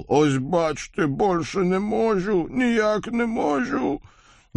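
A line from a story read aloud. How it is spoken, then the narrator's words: Exaggerated hoarse rasp. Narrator (Russian): Кузнец демонстративно прохрипел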